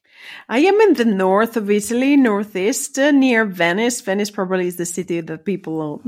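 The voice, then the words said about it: Italian accent. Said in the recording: “you have an Italian accent... I just love your Italian accent”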